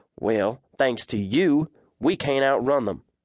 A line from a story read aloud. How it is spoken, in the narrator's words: snapped